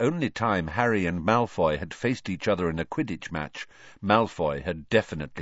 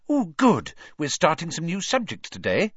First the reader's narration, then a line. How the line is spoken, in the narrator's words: she said happily